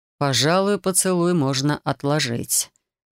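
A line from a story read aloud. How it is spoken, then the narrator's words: Muttered. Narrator (Russian): пробормотал Рион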